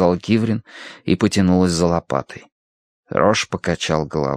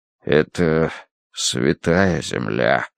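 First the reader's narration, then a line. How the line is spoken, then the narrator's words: Muffled voice. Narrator (Russian): проговорил он глухо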